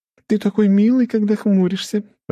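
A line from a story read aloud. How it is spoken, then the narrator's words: Laughing. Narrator (Russian): рассмеялась Лия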